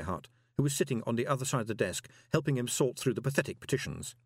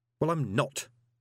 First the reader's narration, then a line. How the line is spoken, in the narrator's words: snapped Moist